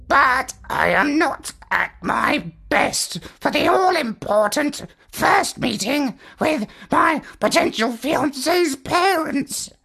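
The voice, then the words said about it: Croaky, rasping parrot voice. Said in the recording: “He rasped ... said the parrot in a croaky voice.”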